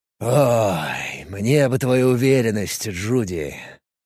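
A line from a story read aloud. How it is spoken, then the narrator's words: Heavy sigh. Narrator (Russian): тяжело вздохнул командор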